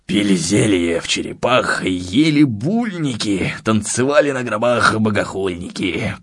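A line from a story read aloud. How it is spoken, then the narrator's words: Hoarse singing under breath. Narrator (Russian): пропел себе под нос Александр, подражая хриплому голосу Высоцкого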